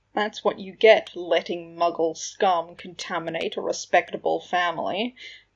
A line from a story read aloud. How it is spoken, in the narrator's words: a sneery voice said